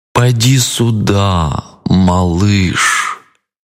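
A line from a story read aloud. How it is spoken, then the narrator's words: Drawling. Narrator (Russian): протянул крокодил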